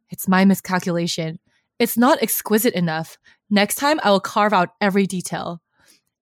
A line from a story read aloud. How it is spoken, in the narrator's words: Huachen frowns solemnly and says